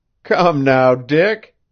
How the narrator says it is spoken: Devant threw his head back and laughed

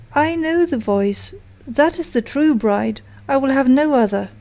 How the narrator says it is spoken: he sprang up and cried

